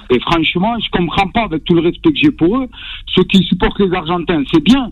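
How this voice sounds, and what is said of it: Toulouse southern French accent. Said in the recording (French): “avec cet accent magnifique de Toulouse”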